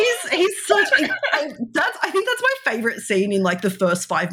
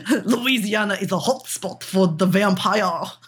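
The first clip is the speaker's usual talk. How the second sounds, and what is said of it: Put-on Transylvanian vampire accent. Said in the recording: “My very best vampire accent ... stereotypical Transylvania”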